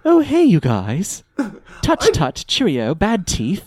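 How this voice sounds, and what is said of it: Put-on posh British accent. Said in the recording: “he immediately falls back into his posh British accent.”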